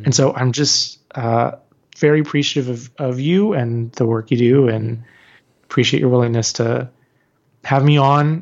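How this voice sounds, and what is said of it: Strained, worn-out voice. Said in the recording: “I've been a little sick this week. ... My voice is a little bit shot”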